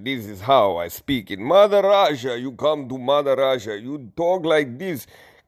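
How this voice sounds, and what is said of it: Put-on Russian accent. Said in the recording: “You know how I do my Russian accent.”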